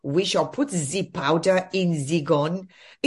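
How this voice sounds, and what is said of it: Imitated Klaus Schwab German accent. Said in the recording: “What's that accent all about? I don't know any German ... That accent. Who has that accent? ... Any Bond villain.”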